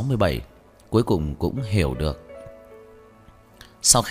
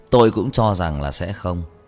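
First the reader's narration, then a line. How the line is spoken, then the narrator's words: Loud laughter. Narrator (Vietnamese): Cố Kế Đông cũng cười lớn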